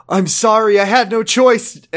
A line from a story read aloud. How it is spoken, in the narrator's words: Emily pleaded